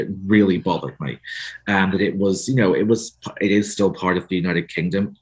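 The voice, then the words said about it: Northern Irish accent. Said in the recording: “you can tell from my accent. I'm from Northern Ireland.”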